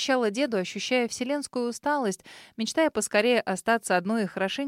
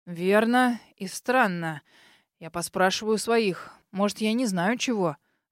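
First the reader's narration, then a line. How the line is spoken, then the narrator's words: Absent-minded sighing old man. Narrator (Russian): Рассеянно проговорил старик, тяжело вздохнув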